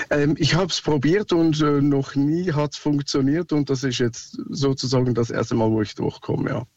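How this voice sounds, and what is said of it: Swiss accent speaking German. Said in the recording (German): “Sorry, mein Akzent, ich bin Schweizer.”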